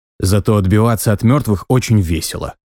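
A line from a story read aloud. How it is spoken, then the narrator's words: Snorting. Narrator (Russian): фыркнул я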